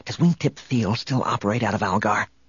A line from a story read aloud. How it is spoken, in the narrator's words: Han whispered